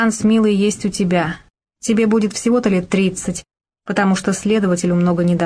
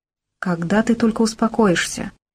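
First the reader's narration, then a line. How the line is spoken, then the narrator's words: Heavy sigh. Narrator (Russian): Он тяжело вздохнул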